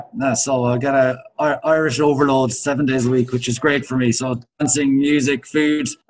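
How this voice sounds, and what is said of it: Irish accent. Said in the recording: “an Irish accent or not, and you didn't disappoint. We got the Irish accent ... you got the accent down perfect”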